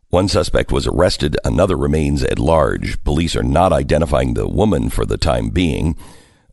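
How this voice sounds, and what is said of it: Voice not sounding normal. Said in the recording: “Please pardon my voice. I'm sorry that it sounds this way.”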